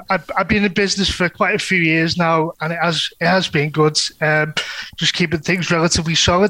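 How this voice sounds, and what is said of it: Strong North Liverpool accent. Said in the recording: “I'm from North Liverpool, as you can probably get from my accent. It is quite relatively strong”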